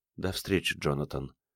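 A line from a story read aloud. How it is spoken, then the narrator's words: Quiet. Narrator (Russian): тихо сказала она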